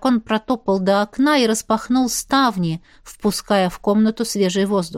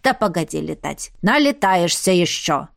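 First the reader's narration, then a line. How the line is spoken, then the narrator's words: Grumbling. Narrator (Russian): пробурчало зеркало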